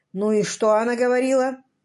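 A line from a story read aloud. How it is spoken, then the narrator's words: Displeased muttering. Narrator (Russian): Недовольно пробурчал Лэм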